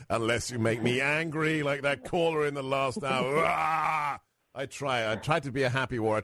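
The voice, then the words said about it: Accented, chipper male voice. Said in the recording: “It's the voice, the accent, but you are always so chipper.”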